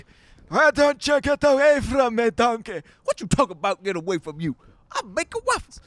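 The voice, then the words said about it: Shrek character voice impression. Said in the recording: “doing an impression of Shrek”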